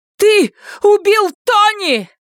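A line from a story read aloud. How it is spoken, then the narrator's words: Shout. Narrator (Russian): закричала она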